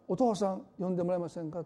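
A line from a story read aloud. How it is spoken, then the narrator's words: Plain. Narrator (Japanese): って言ったんですね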